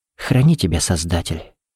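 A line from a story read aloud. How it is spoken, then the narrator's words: Whispered. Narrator (Russian): прошептала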